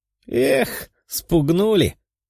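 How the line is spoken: Giggling. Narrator (Russian): хихикнула Мария

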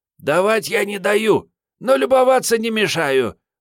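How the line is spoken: Hoarse young woman. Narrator (Russian): прохрипела девица

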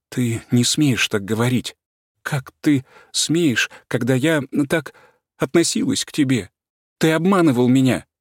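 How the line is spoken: Sobbing, abrupt, harsh voice. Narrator (Russian): рыдая, заговорила отрывистым резким голосом

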